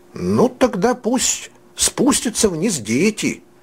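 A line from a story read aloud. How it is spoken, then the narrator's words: Exclaimed. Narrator (Russian): воскликнул Фриц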